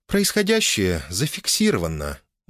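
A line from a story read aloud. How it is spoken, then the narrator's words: Purring. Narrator (Russian): мурлыкнула Оля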